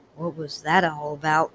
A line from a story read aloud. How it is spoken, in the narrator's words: Nate mumbled